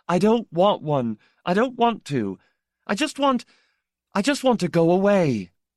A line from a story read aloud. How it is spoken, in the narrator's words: burst into tears and cried